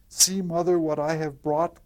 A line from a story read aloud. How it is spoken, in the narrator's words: cried she